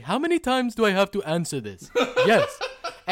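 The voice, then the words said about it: Bad put-on foreign accent. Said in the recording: “What accent was that? That was not ... Russian. ... The bad one. I'm not good at this, man.”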